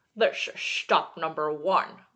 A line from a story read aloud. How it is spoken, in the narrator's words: the old Grinchy Claus hissed